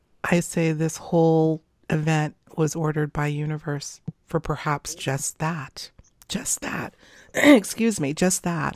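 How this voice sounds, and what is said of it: Strained, failing voice. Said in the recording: “I've been talking a lot today, so I'm losing my voice.”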